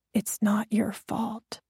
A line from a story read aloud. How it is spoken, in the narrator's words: I pressed my lips against his ear and whispered again